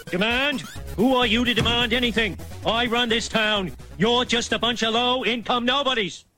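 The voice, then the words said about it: Kennedy-style Boston accent. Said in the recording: “I respect a good JFK accent.”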